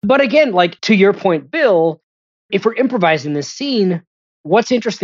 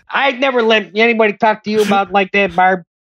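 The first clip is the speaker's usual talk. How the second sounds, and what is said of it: Fancy put-on Chicago accent. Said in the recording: “just make the accent a little more fancy ... Chicago royalty”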